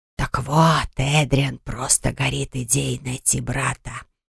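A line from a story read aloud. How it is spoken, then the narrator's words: Whisper. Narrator (Russian): шепотом продолжил он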